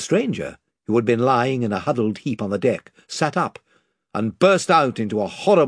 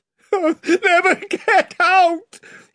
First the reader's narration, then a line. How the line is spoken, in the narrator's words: he yelled